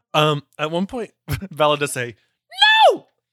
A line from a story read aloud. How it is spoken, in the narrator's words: I shrieked a few octaves higher